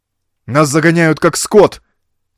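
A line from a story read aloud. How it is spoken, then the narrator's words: Shout. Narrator (Russian): крикнул Ровертон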